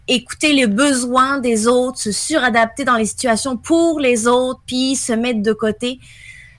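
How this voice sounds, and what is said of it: French accent with Québécois intonations. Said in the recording (French): “un petit accent, elle, qui n'est pas tout à fait québécois ... Il y a des petites intonations ... il y a aussi des petites intonations québécoises ... d'origine française, mais ça fait 18 ans que je suis au Québec”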